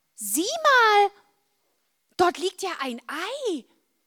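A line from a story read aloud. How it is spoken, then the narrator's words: Calling out. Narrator (German): Marla rief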